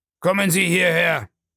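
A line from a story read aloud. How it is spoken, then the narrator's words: Calling, then roaring. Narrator (German): rief er, und als sie nicht gleich gehorchte, brüllte er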